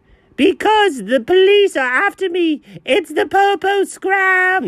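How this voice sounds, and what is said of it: Speaks in a put-on accent. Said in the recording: “especially not in that accent.”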